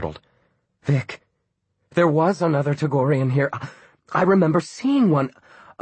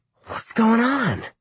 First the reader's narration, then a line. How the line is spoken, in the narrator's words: Murg snarled into Han's face